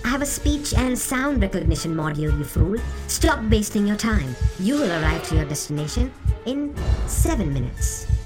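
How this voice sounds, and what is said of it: Cold robotic AI voice. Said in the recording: “in a cold AI voice”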